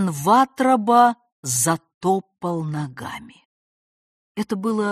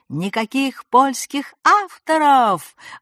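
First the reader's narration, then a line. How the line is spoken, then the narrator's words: High yell breaking into falsetto. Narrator (Russian): орал он высоким голосом, срываясь на фальцет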